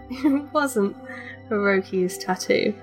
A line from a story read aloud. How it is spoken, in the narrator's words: she chuckled